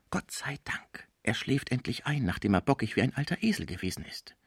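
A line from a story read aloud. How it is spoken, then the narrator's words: Whisper into ear. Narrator (German): flüsterte dem Deutschen ins Ohr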